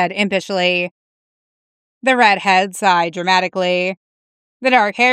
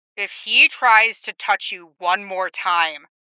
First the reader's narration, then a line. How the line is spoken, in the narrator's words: Cody growled